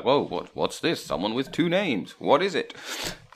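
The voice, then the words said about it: Comic voice of a waking giant. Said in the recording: “That's a good impression of your sleeping giant”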